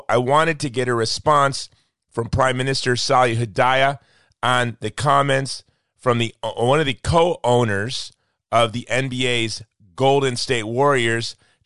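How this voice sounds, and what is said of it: Sick voice with sore throat. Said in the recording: “as you can tell, I am a bit under the weather. I've got a sore throat, a cough, I'm sick”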